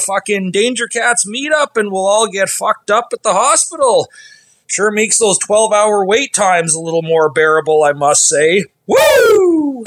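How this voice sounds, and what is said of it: Canadian accent. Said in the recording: “that's the accent of a true Canadian bro right there”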